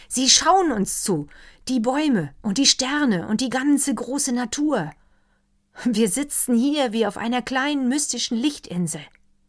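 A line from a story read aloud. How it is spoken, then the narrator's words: Doctor calling. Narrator (German): rief der Doktor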